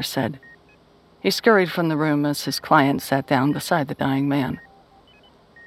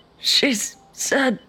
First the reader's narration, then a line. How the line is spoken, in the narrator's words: the old man rasped